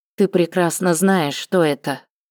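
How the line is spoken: Even, level tone. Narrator (Russian): ровным тоном ответила Таня

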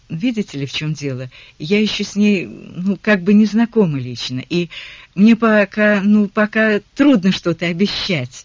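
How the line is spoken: Uncertain mumble. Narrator (Russian): неуверенно пробормотала Мартина

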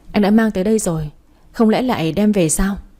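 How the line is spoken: Laughing aloud. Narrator (Vietnamese): Phát nghe vậy bật cười thành tiếng

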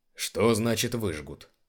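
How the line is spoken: Plain. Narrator (Russian): спросил Биргас

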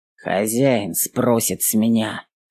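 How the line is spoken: Grumbling. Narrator (Russian): проворчал

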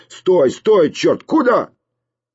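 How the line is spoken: Rough shouting voice. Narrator (Russian): за дверью послышались топот, возня, грубый голос закричал

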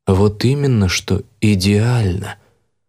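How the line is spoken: Calm. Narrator (Russian): спокойно сказал

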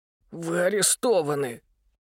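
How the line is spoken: Hoarse wheeze. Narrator (Russian): просипел Митя

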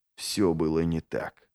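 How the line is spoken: Whispered. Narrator (Russian): прошептал Логин

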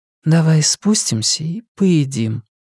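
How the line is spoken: Quiet repetition. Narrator (Russian): тихо повторила Валерия

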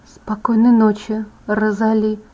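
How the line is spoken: Mumbled. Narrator (Russian): пробормотала я

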